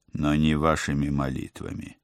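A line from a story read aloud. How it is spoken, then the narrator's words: Stern reminder. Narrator (Russian): строго напомнил я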